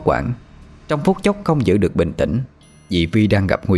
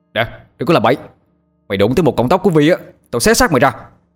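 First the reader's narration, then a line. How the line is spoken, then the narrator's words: Shouting after cursing. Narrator (Vietnamese): Tôi chửi thề hết một tràng rồi hét lên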